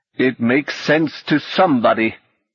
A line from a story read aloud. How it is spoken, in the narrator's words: the old man said bitterly